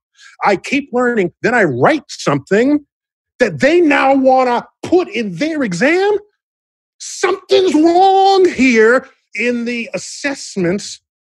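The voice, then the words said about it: Loud, agitated, near-shouting speech. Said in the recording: “I'm screaming. ... you got me all riled up.”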